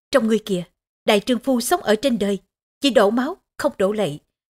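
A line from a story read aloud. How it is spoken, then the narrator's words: Stern rebuke. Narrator (Vietnamese): Bàng Quyên nghiêm nghị trách móc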